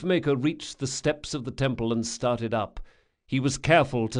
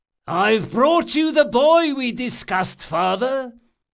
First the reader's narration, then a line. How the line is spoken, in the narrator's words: the thief-maker announced loudly enough for several passers-by to hear him